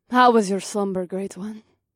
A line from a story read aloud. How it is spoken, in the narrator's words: Mahini purred